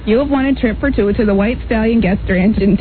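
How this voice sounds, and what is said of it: Upper Midwest Fargo-style accent. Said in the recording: “she does have that Fargo accent”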